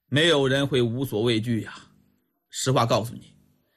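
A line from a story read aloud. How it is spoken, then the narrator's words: Sighing, pensive. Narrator (Chinese): 李元芳摇头叹息，沉思了片刻，这才开口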